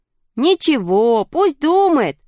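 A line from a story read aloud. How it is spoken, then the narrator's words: Children shouting. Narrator (Russian): закричали ребята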